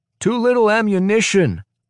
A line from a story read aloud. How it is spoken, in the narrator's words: shouts Baitke